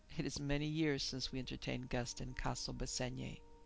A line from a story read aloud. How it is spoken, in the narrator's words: With a soft chuckle, he added